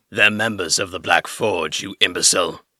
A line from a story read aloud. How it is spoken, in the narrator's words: Suther grunted